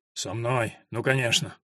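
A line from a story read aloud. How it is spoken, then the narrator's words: Grumbled. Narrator (Russian): пробурчал сидельщик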